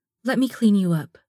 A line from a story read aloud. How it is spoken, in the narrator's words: Stella says